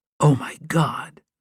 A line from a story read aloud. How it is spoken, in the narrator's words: Melissa whispered